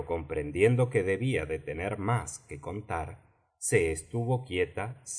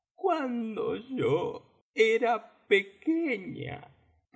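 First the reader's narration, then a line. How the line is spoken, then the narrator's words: Calmer, occasionally sobbing. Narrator (Spanish): prosiguió la tortuga imitada, más tranquila, aunque sollozando de vez en cuando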